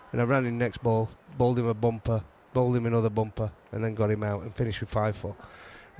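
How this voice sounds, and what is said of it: Yorkshire accent. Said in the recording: “I'm saying it in a Yorkshire accent”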